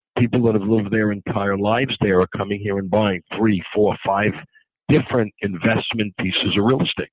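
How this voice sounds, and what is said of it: New York accent. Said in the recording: “with your accent, you're not from Miami, are you? You're from New York? ... it was pretty clear to me that you're a New Yorker”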